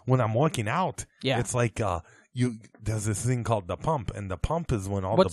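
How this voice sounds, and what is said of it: Bad Arnold Schwarzenegger impression. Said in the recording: “I'll do a bad impersonation.”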